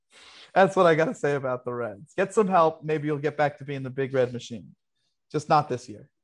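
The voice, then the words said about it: Put-on wise guy accent. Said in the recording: “a really great wise guy accent”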